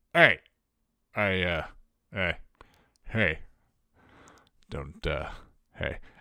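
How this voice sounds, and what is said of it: Imitates another person's voice. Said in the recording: “I can't do a Patrick Warburton impersonation. I don't know why I'm trying to do that.”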